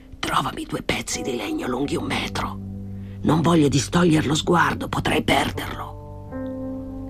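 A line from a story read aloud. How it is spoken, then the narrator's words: Whispered. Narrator (Italian): sussurrò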